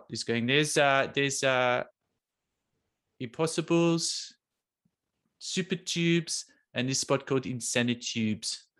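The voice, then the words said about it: Put-on South African accent. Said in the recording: “Is that a good South African accent or the worst you've ever heard?”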